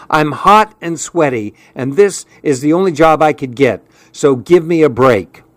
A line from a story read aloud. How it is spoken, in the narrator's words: she said in an irritated tone